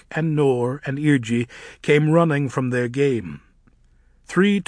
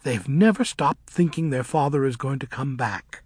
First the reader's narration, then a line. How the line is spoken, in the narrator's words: said Surima under her breath to Elphaba